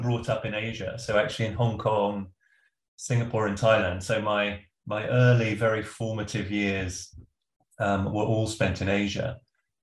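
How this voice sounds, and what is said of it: Stereotypically English accent. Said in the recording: “I sound very stereotypically English ... hence the accent”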